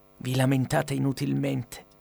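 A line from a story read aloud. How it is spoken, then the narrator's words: Old woman whispering in ear. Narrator (Italian): sussurrò all'orecchio la vecchietta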